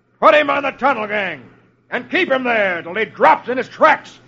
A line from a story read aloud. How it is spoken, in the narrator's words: The man with the bullwhip roars